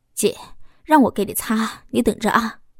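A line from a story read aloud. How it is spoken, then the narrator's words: Mischievous snicker. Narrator (Chinese): 小峰嘿嘿的坏笑几声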